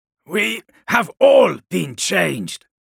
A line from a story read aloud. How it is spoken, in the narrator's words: Shiban grunted